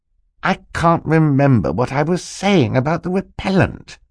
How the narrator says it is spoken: said a little crossly

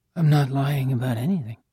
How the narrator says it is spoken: Coco barely moved her lips as she mumbled

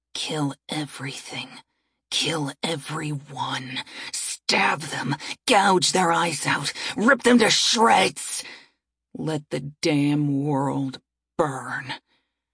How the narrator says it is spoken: It whispers

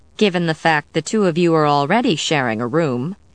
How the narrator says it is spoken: Sarah commented dryly

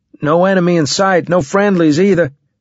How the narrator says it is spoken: I shouted down

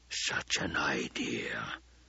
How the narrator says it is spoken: the Baron whispered

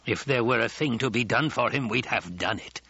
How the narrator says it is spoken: the old woman growled

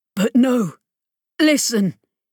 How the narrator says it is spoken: he said hoarsely

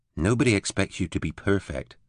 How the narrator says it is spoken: Eleanor said quietly

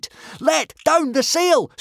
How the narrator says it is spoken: screamed Hiccup

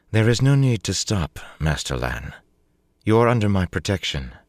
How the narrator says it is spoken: she said coolly

